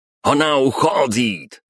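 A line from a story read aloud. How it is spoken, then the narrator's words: Crowd shouting. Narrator (Russian): закричали французы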